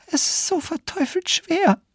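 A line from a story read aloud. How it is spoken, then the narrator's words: Wailing complaint. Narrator (German): jammerte Maria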